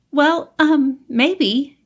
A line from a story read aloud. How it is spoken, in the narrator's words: Carol stammered